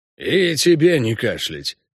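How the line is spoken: Grumbling goblin. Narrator (Russian): пробурчал гоблин

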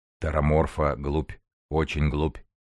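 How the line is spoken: Booming bass, huge speaker. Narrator (Russian): гулким басом возвестил кто-то, нависший сверху, как гора

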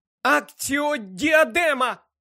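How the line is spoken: Desperate shout. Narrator (Ukrainian): у відчаї крикнула Герміона

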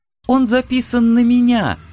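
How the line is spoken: Joyful. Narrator (Russian): радостно розово открыла рот О-90

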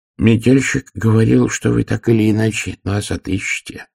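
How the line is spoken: Plain. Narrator (Russian): сказал второй монах

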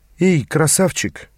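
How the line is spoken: Breathed out. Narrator (Russian): выдохнул мой некогда фигуристый товарищ

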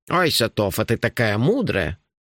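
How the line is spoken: Sarcastic grumble. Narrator (Russian): проворчал Нуфлин

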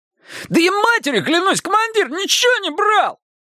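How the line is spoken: Squeaky voice. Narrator (Russian): пискнул еще Романов

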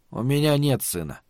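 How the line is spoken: Very quiet. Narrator (Russian): сказал Малибарт, но очень тихо

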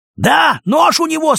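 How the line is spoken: Shouting king. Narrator (Russian): снова крикнул розовый голый король

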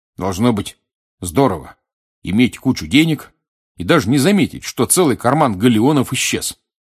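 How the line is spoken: Curt. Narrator (Russian): отрывисто сказал Рон

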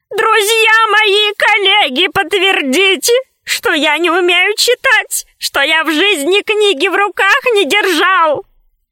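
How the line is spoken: Shouting. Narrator (Russian): Мудрец кричал

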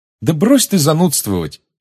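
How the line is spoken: Cheerful exclamation. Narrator (Russian): весело воскликнула Чжоу

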